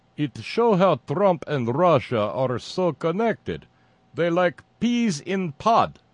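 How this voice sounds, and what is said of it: Thick, bad Russian accent. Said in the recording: “responded in a thick Russian accent... doing a thick, bad Russian accent”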